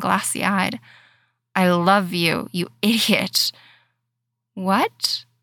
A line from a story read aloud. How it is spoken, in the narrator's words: Jim spluttered again, blindsided by the statement